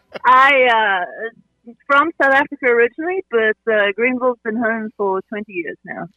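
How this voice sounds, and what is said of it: South African accent. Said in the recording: “I'm going to pick up on the accents here and say you're not from Aiden originally”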